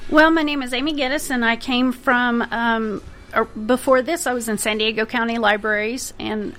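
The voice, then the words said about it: Oklahoma accent. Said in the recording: “as you can tell by the accent, I am not from around here. I'm originally from Oklahoma.”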